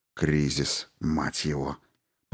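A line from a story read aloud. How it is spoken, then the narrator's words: Grumbling. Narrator (Russian): проворчал Грей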